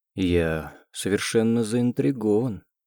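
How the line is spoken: Soft purr. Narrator (Russian): мурлыкает он мягко

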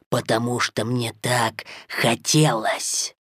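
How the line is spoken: Drawn-out drawl. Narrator (Russian): протянул Шерхан

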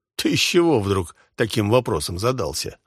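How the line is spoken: Chuckling laugh. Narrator (Russian): хохотнул граф Рейнеров

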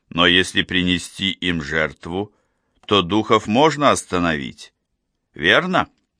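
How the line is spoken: Calm. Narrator (Russian): Бигги спокойно проговорила

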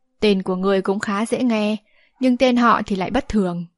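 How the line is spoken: Old man sighing. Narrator (Vietnamese): Lão nhân áo gai thở dài nói

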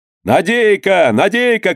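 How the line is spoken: Shouting. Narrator (Russian): кричал Данила

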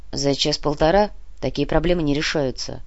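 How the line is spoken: Gruff mutter, police general. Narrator (Russian): буркнул генерал Шведов, начальник московского полицейского управления

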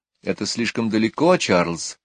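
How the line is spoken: Plain. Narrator (Russian): сказала она

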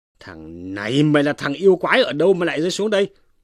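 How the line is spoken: Barked question. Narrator (Vietnamese): quát hỏi rằng

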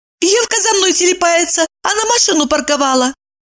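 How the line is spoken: Joyful squeal, then matter-of-fact. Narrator (Russian): радостно взвизгнула Евдокия и тут же обыденно пояснила

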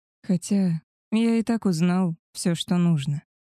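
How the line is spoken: Sad wolf. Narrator (Russian): грустно ответил волк

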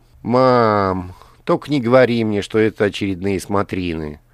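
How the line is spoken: Heavy sigh. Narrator (Russian): Алиса тяжело вздохнула

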